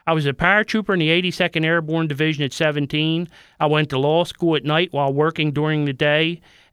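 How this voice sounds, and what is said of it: Baltimore accent. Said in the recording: “As you can tell from my accent, I was born and raised in Baltimore.”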